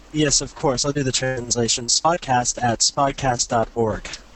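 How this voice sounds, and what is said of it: American accent. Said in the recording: “Let's hear that in the American accent... Mr. American guest”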